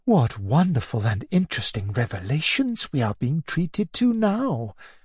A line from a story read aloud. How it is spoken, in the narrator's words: whispered Natalia